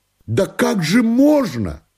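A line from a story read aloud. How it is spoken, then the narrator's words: Astonished shout. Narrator (Russian): крикнул он, изумляясь моему спокойствию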